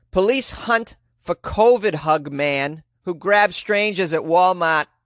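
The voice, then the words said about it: Put-on Massachusetts accent. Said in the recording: “my Massachusetts accent”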